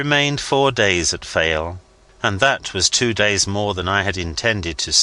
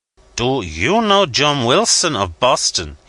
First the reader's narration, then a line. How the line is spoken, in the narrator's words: he cried